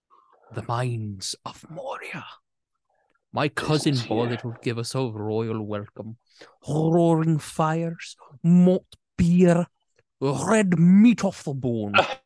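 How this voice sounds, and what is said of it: Scottish accent movie character impression. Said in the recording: “It's not bad. ... He's the only Scottish person in the entire movie. Or the only Scottish accent”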